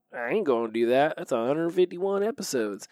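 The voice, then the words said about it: Thick put-on country accent. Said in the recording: “take on a thick country accent”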